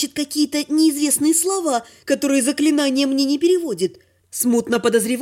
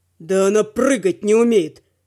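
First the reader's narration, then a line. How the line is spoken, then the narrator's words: Dragon's growl. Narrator (Russian): прорычал дракон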